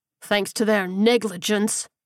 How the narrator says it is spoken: the man growled

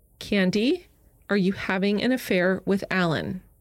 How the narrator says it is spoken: Her face was blank, her eyes unfocused, and Betty calmly said

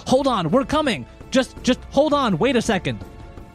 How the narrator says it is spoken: he shouts to them

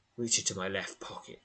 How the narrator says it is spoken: she whispers

